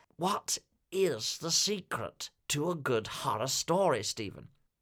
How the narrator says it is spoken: very quietly told

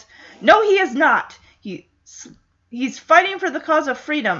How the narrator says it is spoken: Kennedy yells

